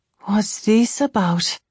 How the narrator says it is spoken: I asked her, but the words escaped as a sigh, because I already suspected the answer

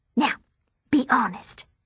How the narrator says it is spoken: she whispers with eyes that are pleading for me to be anything but

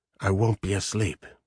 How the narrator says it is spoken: he said grimly

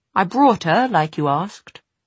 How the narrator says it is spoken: He forced his face into a smile and said in a passably cheerful tone

